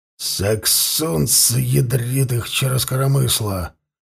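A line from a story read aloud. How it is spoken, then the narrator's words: Angry cursing. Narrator (Russian): Зло выругался Ворун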